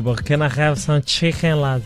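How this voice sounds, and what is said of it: Attempted Scouse accent. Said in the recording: “have you still got that Scouse twang that you can pull off ... in a Scouse accent”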